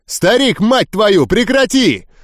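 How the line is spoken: Yelling. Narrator (Russian): заорал я

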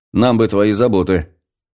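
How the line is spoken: Snorting. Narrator (Russian): хмыкнул Чугунцов

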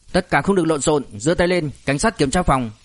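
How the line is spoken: Very loud barked order. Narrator (Vietnamese): một thanh âm thật lớn quát lên

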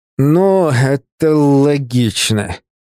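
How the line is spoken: Through gritted teeth. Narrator (Russian): процедил Север

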